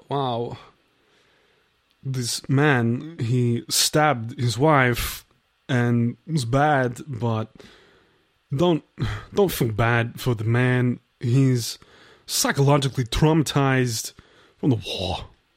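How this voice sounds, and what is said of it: Christopher Walken impression. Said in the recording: “you're um Christopher Walken ... a Christopher Walken impression”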